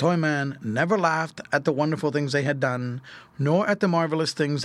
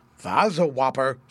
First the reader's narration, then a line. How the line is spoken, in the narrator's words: said he